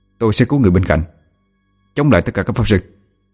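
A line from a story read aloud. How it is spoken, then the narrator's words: Cold reply. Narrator (Vietnamese): Quân ánh mắt lạnh lùng đáp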